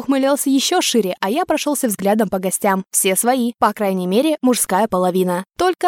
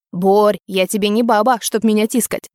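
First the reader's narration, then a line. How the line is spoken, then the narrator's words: Grumbling. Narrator (Russian): заворчал на друга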